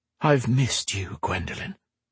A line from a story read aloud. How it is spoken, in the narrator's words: Roan whispered in her ear